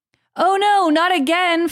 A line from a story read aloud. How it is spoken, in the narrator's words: Frodo cried from deep within the dark cave